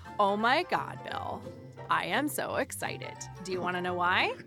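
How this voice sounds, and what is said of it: Put-on Valley Girl accent. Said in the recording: “Is it National Valley Girl Day? ... I'm using the wrong accent. That was part of me as a 12-year-old”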